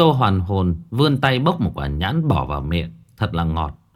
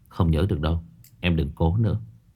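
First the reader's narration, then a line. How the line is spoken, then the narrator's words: Lowered voice. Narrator (Vietnamese): Phong Đình hạ giọng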